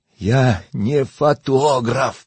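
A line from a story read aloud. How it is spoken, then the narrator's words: Desperate moan. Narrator (Russian): простонал я в отчаянии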